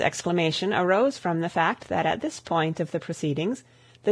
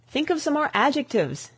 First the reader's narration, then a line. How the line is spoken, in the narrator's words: exclaimed the young man